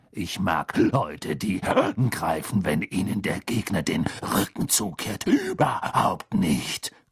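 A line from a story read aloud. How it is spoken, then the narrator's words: Growling. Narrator (German): knurrte Moody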